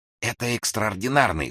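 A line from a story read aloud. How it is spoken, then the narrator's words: Whisper. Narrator (Russian): шепнул офицер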